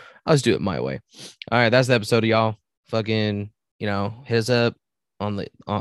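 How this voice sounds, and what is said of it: Usual voice. Nothing is said of it.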